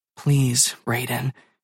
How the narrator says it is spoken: she whispers

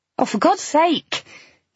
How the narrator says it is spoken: I snapped

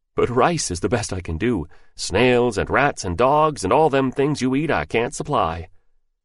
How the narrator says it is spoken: laughed freely and roared

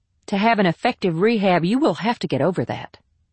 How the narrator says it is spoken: replied Mark sharply

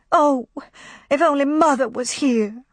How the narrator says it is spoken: nagged, and cried, and said once too often

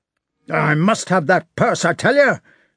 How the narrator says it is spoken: shouted Denisov

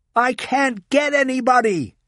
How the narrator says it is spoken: she yelled

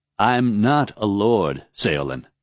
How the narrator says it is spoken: Raoden said

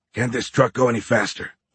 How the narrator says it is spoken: Horn grumbled

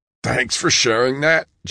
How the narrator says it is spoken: John gasped

